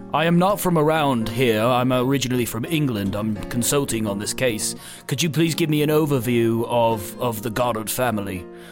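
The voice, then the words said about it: Put-on English accent. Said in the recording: “your accent is so spot on English”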